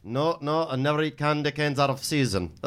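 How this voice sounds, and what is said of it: Put-on Indian-Irish sounding accent. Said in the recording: “What was that accent? ... That was like Indian. ... That was with a little Irish. Yeah. There was a little leprechaun in that.”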